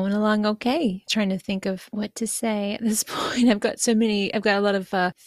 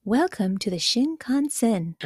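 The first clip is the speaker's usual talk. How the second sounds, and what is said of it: Soothing train announcer voice. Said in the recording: “do my Shinkansen voice ... the lady who speaks in English is very soothing on the Shinkansen ... It's just very lovely and peaceful”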